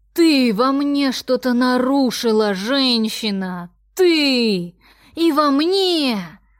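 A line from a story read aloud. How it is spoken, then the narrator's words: Almost growling. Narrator (Russian): Он чуть не рычал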